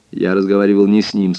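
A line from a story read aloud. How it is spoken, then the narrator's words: Plain. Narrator (Russian): сказал я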